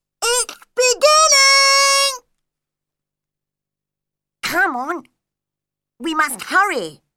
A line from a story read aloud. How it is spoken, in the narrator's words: cried the griffin